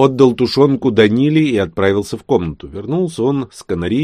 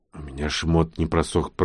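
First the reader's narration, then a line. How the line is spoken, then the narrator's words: Hoarse rasp. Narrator (Russian): прохрипела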